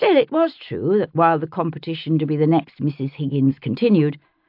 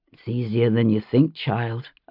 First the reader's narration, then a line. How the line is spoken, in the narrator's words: I said, under my breath